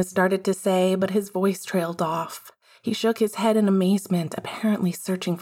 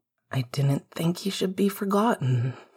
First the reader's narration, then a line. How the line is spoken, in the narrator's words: Sirius said quietly